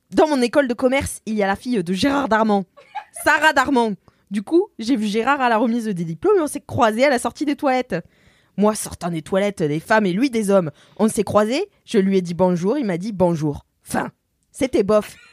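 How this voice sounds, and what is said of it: Put-on Marseille accent. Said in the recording (French): “Je vais essayer de me remettre dans l'accent marseillais.”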